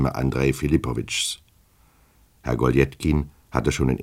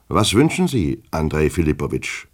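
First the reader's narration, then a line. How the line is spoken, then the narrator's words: Sharp question. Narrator (German): fragte er ziemlich scharf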